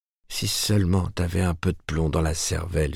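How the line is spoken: Low, gentle but convinced. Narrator (French): fit-elle à voix basse pour ne pas blesser son frère, mais convaincue de la justesse de son diagnostic

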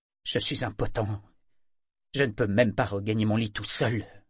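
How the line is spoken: Bitter. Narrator (French): fit-il d'un ton amer

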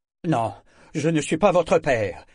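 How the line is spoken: Curt reply, heavy man. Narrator (French): avait répondu le gros homme d'un ton sec

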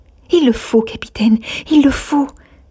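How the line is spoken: Ardent exclamation. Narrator (French): s'écria-t-elle d'une voix ardente

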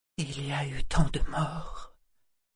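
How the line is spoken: Whispered. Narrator (French): chuchota-t-elle

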